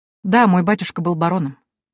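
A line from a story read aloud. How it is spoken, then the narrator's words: Cold, detached reply. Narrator (Russian): ответила я, держась холодно и отстраненно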